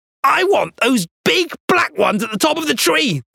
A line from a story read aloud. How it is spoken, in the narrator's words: the man was shouting